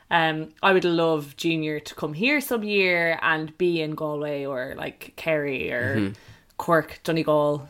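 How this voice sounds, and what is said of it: Dublin Irish accent. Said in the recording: “we're dubs... You can probably tell by our accents if you're Irish”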